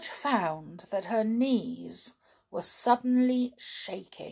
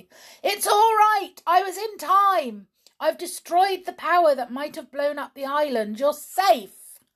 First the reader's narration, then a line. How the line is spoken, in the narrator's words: Uncle Quentin shouted exultantly